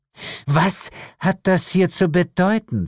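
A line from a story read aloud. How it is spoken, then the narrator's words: Hissed. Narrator (German): zischte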